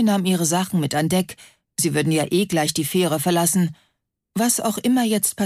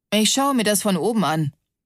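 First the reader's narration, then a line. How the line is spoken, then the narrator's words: Plain. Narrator (German): sagte er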